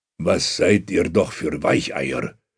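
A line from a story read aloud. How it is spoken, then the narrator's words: Contemptuous growl. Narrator (German): knurrt Bogdan verächtlich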